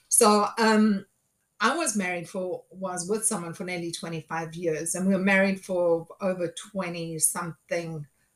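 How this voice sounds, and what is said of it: Throaty, slightly hoarse voice. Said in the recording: “I've got a frog in my throat.”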